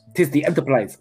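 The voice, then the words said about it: Imitated Russian-accented character voice. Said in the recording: “I can't do Chekhov's voice. ... butcher the Russian language ... openly mocking the Russians ... I'm doing a Walter Koenig impression.”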